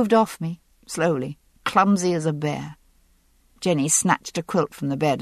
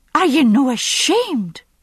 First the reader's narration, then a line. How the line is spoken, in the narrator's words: cried, scandalized